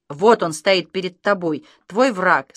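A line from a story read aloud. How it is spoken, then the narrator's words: Plain. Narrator (Russian): сказал Александр Алексеевич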